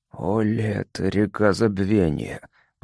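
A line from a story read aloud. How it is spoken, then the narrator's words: Whispered. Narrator (Russian): прошептал Тарка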